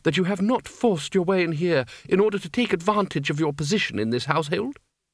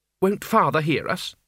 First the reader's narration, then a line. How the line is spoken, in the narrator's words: she said